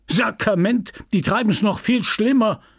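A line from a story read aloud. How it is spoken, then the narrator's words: Pharmacist calling out. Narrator (German): rief der Pharmazeut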